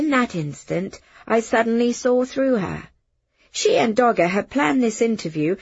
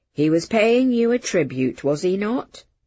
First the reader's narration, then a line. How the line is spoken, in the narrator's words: Dogger asked